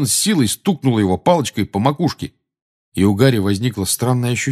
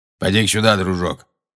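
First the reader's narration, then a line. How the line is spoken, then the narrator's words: Grumbling. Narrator (Russian): проворчал Грюм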